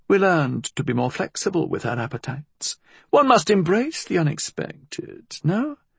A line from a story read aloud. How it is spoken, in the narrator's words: Rose murmured